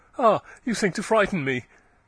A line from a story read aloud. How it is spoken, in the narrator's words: said with a slight laugh